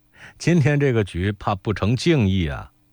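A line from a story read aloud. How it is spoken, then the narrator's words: Laughing. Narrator (Chinese): 季之笑说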